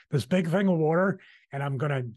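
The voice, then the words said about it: Philadelphia accent. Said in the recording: “that's my Philly accent. Did you notice that, Mike? Water.”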